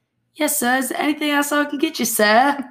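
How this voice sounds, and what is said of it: Put-on accent. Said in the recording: “What is with your accents? ... I love that accent though.”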